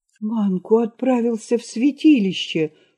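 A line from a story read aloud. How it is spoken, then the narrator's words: Frightened exclamation. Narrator (Russian): воскликнул Игна, сам испугавшись того, что сказал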